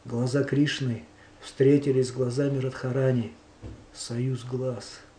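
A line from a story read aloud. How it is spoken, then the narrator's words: Barely audible. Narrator (Russian): Он сказал едва слышно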